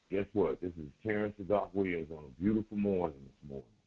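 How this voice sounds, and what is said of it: Smooth, calm radio voice. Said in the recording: “that smooth radio voice ... calm me down”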